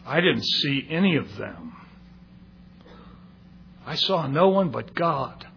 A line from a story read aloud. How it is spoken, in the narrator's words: He answered solemnly